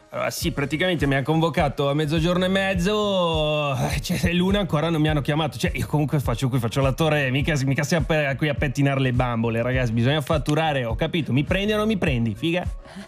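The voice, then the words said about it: Put-on Milanese accent. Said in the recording (Italian): “Attore milanese ... oltre il dialetto”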